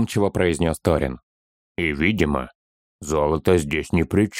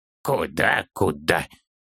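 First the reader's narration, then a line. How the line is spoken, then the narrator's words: Confused child's mutter. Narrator (Russian): Несколько растерянно пробормотал малыш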